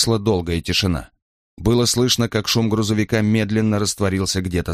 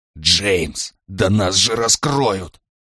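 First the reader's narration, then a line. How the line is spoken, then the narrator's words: Alarmed hiss. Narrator (Russian): прошипел Брайан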